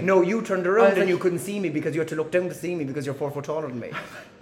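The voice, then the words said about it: Strong Cork Irish accent. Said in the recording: “you had the dirty Cork accent”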